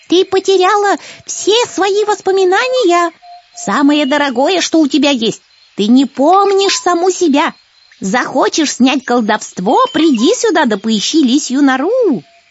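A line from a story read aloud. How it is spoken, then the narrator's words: Old wise woman shouting. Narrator (Russian): прокричала ей вслед ведунья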